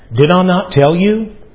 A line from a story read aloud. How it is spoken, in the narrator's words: He says